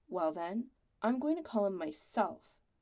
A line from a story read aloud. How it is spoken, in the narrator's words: his mother said sternly